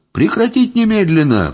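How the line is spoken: Howling. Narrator (Russian): взвыл я

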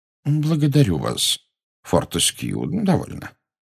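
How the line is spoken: Gentle rebuke. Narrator (Russian): мягко осадил его Дамблдор

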